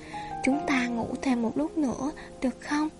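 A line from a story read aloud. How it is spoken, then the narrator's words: Whisper. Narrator (Vietnamese): Anh thì thầm bên tai cô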